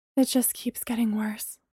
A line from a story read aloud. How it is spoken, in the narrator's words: Bree breathed